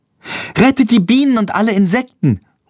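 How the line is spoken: Calling out. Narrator (German): ruft Lilli

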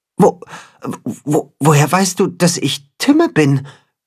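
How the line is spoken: Stuttering creature. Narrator (German): stottert das Katzenhuhn

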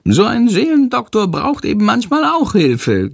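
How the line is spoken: Giggling. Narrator (German): kichert Chandor

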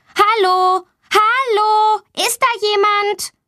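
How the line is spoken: Loud call. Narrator (German): Sie ruft laut

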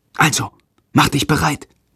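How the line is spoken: Whispering. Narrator (German): flüstert Jendrik

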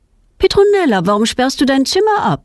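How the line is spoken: Called out. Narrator (German): ruft ihre Mutter

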